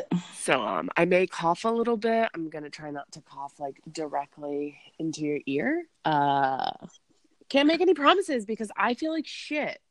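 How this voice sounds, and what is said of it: Sick-sounding voice. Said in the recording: “hear it in my voice, but I have the plague or something ... I've been sick”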